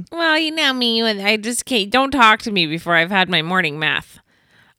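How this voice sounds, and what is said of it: Weird put-on voice. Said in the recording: “weird voice.”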